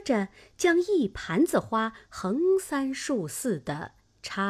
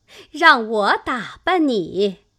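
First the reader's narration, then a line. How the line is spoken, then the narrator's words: Laughing. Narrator (Chinese): 凤姐 笑道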